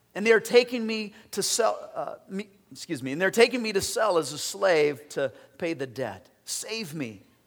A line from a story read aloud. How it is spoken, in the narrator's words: cried